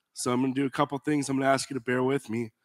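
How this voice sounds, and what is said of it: Weak, failing voice. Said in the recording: “You can kind of hear my voice is starting to go out on me... however timid my voice may sound”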